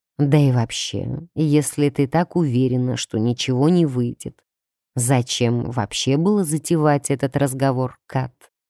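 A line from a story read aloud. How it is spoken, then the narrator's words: Insinuating man's voice. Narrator (Russian): вкрадчиво уточнил мужчина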